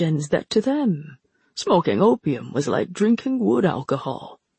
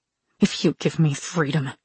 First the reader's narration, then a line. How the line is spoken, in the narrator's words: she snarled